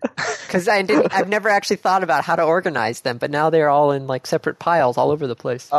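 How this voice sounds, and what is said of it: Usual voice. Nothing is said of it.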